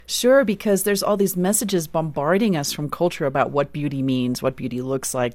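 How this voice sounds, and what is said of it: South African accent. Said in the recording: “Some people are probably hearing an accent. You're from South Africa.”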